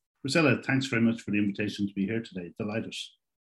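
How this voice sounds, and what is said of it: Irish accent. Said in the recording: “a great person from Ireland, and you're going to love this accent.”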